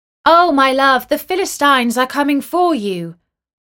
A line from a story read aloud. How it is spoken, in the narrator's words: she called out